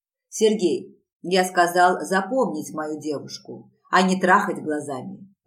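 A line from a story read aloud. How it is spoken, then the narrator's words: Snarled. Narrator (Russian): рыкнул Риман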